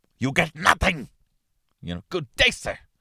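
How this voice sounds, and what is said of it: Gene Wilder as Willy Wonka impression. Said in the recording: “it's hard to do Gene Wilder ... It's very hard to do.”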